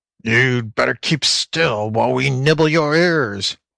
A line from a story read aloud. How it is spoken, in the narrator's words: howled